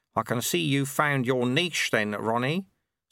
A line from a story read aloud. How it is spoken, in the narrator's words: said Lutze soothingly